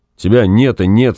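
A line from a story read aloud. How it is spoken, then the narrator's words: Angry. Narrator (Russian): сказал он, сердито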